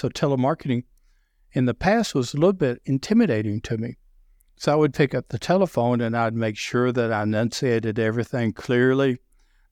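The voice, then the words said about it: Deep Southern American accent. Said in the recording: “I have a deep Southern accent, so obviously it's a beautiful accent.”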